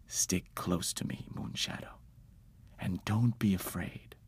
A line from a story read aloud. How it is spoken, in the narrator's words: Father took the opportunity to whisper to me